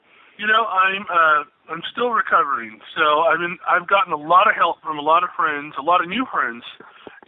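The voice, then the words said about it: Noticeably affected, unwell voice. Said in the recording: “you can obviously tell my voice is still affected”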